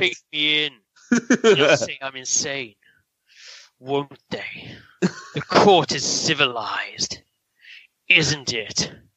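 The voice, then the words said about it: Poor impression of a film villain. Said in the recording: “That was a bad impression. ... Brian Thompson's Night Stalker in Cobra.”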